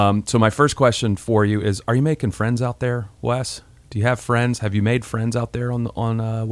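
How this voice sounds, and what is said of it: Usual voice. Nothing is said of it.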